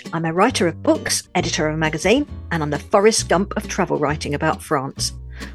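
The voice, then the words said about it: British London accent. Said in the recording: “I'm a Brit, a Londoner, as you can probably tell from my accent”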